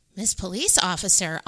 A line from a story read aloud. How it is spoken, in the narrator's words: Amu exclaimed